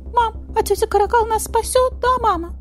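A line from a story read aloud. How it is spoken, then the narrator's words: Squeaky little meerkat. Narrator (Russian): пропищал сурикатик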